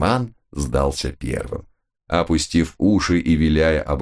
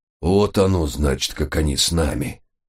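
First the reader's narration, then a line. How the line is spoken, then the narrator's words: Gloomy grunt. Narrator (Russian): мрачно крякнул отец Пафнутий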